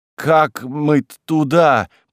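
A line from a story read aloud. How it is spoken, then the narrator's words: Hoarse wheeze. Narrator (Russian): просипел он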